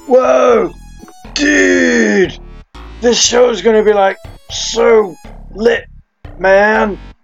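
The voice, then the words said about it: Attempted stoner voice. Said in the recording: “talk like a stoner ... You just like drag your voice a lot more.”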